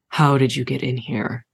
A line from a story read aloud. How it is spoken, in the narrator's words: I sighed